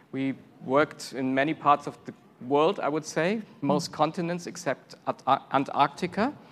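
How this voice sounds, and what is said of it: German accent. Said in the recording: “you hear our accent. I'm from Germany originally.”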